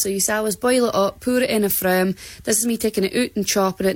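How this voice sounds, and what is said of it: Shetland accent, speaking fast. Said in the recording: “There's something really good about that accent ... she was speaking about fast as well”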